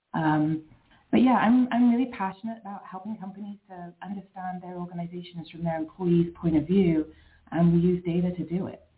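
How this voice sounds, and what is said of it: British accent. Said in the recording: “it's not a Philly accent that you're hearing. I'm from the UK originally.”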